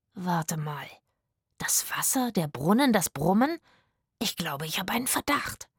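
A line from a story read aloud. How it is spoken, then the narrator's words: Murmured. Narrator (German): murmelte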